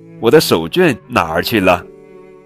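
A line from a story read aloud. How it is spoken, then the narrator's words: Anxious hurried shout. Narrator (Chinese): 爸爸上班要迟到了，他着急地喊着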